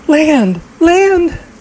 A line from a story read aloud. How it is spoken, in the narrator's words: the older girl squealed and screamed